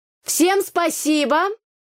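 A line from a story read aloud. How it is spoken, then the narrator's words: Shouting. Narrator (Russian): крикнула я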